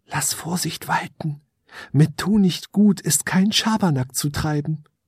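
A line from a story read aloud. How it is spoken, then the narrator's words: Rising whisper turning to giggles. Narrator (German): ein Säuseln, das immer lauter klang und in ein Kichern überging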